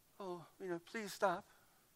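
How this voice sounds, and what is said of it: Quiet, nice voice with an accent. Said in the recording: “With a quiet, nice voice. ... I don't know where the accent came from.”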